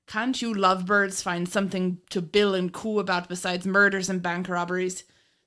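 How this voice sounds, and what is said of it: Put-on Irish accent. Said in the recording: “Sorry about the Irish accent”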